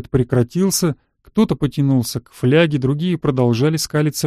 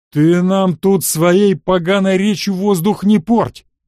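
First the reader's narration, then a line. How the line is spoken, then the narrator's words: Roar. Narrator (Russian): взревел кнут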